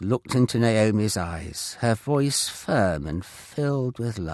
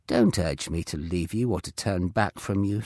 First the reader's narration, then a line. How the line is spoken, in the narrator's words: she said